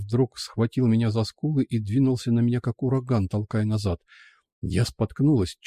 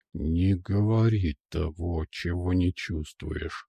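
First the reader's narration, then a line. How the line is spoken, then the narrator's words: Threatening through clenched teeth. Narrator (Russian): пригрозил сквозь зубы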